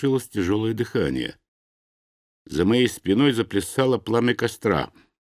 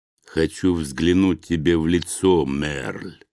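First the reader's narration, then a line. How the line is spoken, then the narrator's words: Hissing hidden creature. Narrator (Russian): прошипело нечто, притаившееся в кустах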